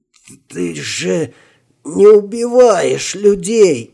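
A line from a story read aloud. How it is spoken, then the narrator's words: Hoarse wheeze, boatswain. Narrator (Russian): прохрипел боцман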